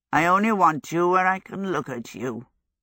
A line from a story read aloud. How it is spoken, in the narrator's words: Hal croaked